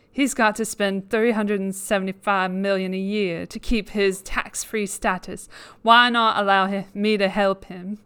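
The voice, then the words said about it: Mock Southern Belle accent. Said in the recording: “faux Southern Belle accent ... my attempt at a British Southern Belle accent”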